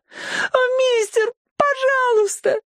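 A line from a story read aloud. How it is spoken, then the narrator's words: Sobbing girl. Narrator (Russian): рыдала девочка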